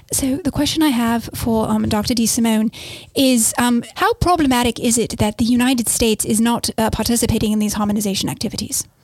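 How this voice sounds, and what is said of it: Put-on British accent. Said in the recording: “in a British accent, please”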